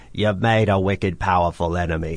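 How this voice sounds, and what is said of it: Old man character voice with accent. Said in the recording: “I love the accent.”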